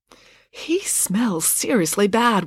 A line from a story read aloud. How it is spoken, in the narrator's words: whispered Loretta